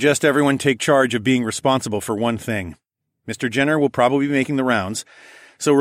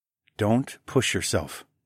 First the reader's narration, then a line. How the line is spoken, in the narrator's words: I murmured into her ear